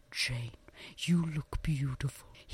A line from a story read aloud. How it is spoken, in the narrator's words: whispered